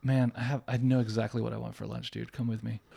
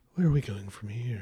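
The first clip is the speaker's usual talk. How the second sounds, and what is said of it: Mock public-radio announcer voice. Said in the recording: “That was my NPR voice”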